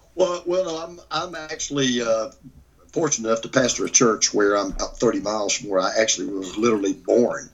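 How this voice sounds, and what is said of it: Georgia accent. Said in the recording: “I can tell by your accent that you're probably not from this neck of the woods”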